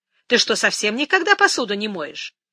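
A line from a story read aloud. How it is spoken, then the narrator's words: Unrepentant snort. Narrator (Russian): Джастина фыркнула, не проявляя ни малейшего раскаяния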